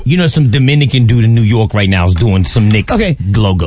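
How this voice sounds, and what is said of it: Put-on Dominican New Yorker accent. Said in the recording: “he tried to put an accent on it ... which accent ... That's my Dominican New Yorker.”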